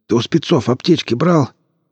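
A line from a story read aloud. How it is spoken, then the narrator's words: Hoarse wheeze. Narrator (Russian): просипел Мамай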